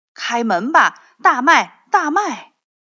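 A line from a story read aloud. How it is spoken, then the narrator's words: Loud shouting. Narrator (Chinese): 他大声喊着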